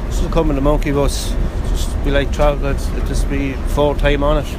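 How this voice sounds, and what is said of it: Irish Dublin accent. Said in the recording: “with that accent, you're from Dublin. I'd say Dublin.”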